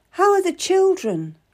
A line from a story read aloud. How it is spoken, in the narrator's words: I begged him